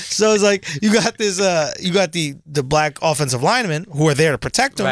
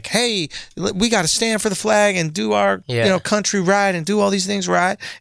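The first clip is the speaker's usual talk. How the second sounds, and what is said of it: Put-on white guy accent. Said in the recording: “some white guy accent.”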